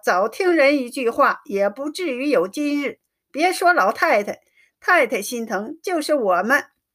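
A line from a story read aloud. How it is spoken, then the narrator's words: Sighing. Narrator (Chinese): 宝钗叹息一声，说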